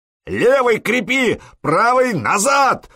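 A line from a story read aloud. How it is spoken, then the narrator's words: Roared. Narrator (Russian): взревел Простен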